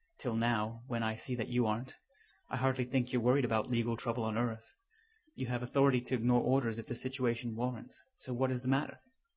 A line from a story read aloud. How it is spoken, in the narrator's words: said quietly